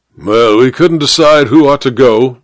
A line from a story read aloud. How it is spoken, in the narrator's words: said the major gruffly